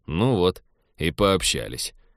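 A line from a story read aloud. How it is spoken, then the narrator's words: Gloomy. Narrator (Russian): мрачно сказал Теодор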